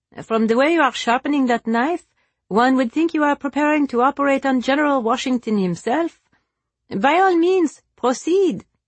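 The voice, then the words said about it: Teasing character voice. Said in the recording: “in a teasing voice”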